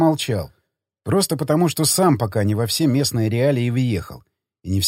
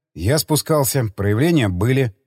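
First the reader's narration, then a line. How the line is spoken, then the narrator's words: Plain. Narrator (Russian): ответил я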